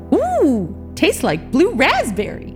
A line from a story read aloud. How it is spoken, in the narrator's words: said cheerfully